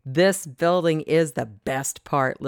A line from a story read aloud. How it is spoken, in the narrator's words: Lily said